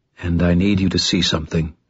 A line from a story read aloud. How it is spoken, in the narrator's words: he said quietly